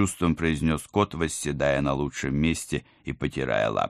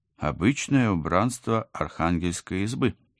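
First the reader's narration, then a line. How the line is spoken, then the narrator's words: Uncertain. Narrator (Russian): неуверенно пожала плечами я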